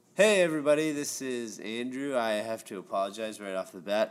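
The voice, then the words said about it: Sick-sounding voice. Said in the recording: “I'm a little sick this week, so my voice might sound a little different.”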